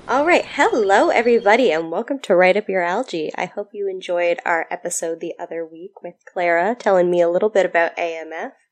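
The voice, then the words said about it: Deep, congested cold-affected voice. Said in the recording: “I am recovering from a cold, so I've got this sweet, sweet deep drawl going on”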